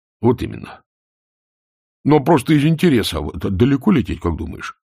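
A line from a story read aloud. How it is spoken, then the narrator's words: Plain. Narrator (Russian): спросил Колон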